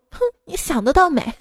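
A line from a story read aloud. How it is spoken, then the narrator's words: Quiet, annoyed girl. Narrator (Chinese): 她直接不干了，小声的说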